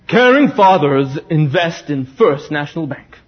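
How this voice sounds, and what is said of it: Deep husky American accent. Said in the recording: “deep American husky accent.”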